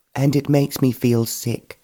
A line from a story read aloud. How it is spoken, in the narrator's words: Georgina exclaimed